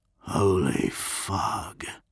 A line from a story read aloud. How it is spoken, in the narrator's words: he whispered